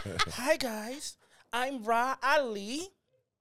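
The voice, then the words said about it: Imitates another person's voice. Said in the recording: “impersonating my sis ... That was a good impersonation ... It was the mannerisms”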